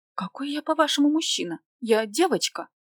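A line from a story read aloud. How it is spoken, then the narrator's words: Low moan. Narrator (Russian): застонала в полголоса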